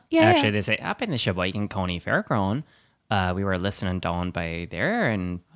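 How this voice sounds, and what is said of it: Put-on regional accent. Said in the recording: “That's a very interesting accent”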